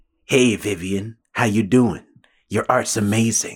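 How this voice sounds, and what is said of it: Soft earnest NPR-style voice. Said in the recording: “Sounds like he's talking in an NPR voice.”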